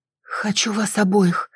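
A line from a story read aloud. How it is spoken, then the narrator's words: Breathy exhale. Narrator (Russian): выдохнула я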